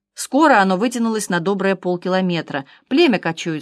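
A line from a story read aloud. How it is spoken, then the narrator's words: Plain. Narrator (Russian): сказал доктор Франсуа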